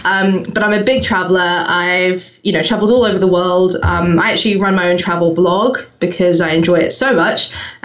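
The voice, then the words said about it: New Zealand accent, mixed British, American. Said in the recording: “I'm from New Zealand. You may hear that I have a slightly strange accent. Merged now with the UK and I've got American clients and, you know, it's a bit of a mishmash.”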